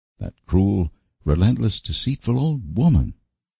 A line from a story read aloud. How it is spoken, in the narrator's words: cried Anne